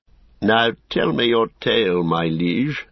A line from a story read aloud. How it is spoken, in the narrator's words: said Denethor, half kindly, half mockingly